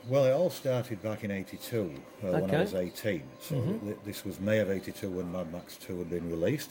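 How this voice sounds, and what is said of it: English accent. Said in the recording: “You come from England. We can immediately hear that in your accent.”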